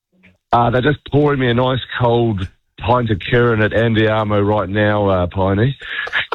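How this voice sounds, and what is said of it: Hoarse, nearly lost voice. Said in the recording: “I've just lost my voice, mate. I've just lost my voice.”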